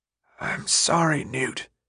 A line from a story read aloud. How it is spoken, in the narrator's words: he whispered